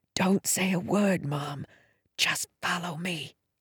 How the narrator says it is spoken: whispered

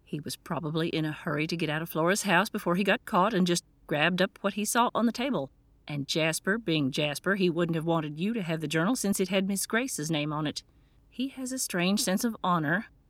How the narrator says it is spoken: sighed

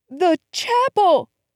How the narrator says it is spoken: Putting her mouth close to my ear, she shouted

